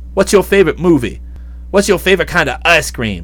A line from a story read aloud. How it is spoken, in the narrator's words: I called out